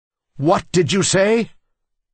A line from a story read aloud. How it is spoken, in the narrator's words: roared Dad, his face as red as a tomato